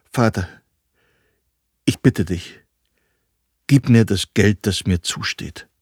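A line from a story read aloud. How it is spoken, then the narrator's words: Halting voice. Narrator (German): sagt er mit stockender Stimme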